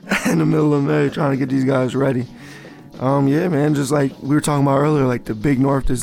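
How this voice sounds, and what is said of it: Hoarse, strained voice. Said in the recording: “I'm losing my voice yelling”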